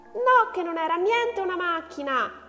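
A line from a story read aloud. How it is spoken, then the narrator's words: Excited shriek. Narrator (Italian): strillò Gloria, dimenticando nella foga la grammatica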